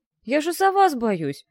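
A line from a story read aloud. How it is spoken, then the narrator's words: Offended objection. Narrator (Russian): обиженно возразил Жак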